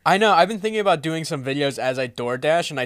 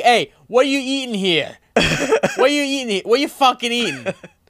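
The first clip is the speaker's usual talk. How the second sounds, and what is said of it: Put-on Brooklyn accent. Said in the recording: “I talk with like a Brooklyn accent.”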